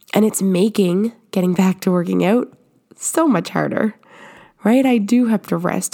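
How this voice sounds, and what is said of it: Voice sounds sick. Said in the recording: “I got really, really sick, and I can probably still hear it in my voice. I'm still sick.”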